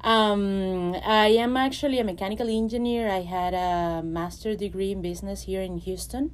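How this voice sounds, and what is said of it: Venezuelan Spanish accent in English. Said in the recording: “I am Venezuelan, so you probably will hear some accent and some Spanish words.”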